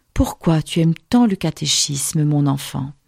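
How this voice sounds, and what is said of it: Very soft gentle voice. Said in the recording (French): “avec une voix très douce”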